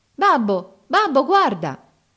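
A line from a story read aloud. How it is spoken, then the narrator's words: Happy child's exclamation. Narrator (Italian): esclamò il più piccolo tutto felice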